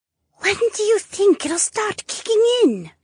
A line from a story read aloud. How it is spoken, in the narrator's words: Josephine whispered